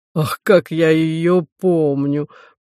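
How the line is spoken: Booming fat man's voice. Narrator (Russian): прогудел толстый камергер

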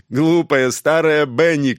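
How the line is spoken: Excited teasing shout. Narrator (Russian): крикнул он, подпрыгивая на диване

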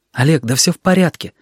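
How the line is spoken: Hurried whisper. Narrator (Russian): торопливым шепотом сказал он

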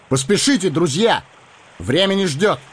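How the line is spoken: Shouting. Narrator (Russian): Арагорн крикнул

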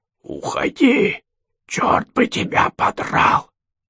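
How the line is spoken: Hoarse creature. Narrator (Russian): прохрипело существо

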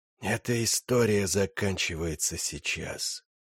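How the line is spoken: Whispered. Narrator (Russian): прошептал он

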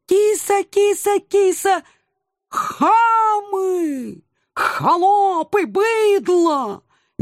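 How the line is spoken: Sudden howl. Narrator (Russian): Неожиданно взвыл доселе молчавший агент 013

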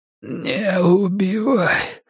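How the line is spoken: Hoarse croak. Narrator (Russian): прохрипел охотник

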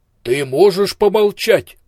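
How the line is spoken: Thundering blind man. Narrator (Russian): прогремел слепой Ио

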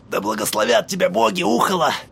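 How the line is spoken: Mutter. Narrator (Russian): пробормотал он

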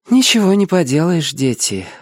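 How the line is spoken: Sighing. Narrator (Russian): вздохнула она

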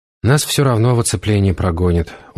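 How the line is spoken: Dejected objection. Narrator (Russian): уныло возразил прорицатель

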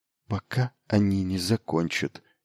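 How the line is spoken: Quiet answer. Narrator (Russian): тихо ответила она

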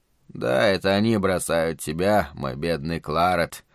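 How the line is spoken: Muttering. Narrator (Russian): пробормотал Шелли

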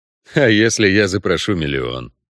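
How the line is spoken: Wry snort. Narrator (Russian): хмыкнул Геральт

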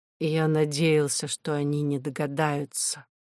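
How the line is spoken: Quiet. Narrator (Russian): тихо сказал профессор

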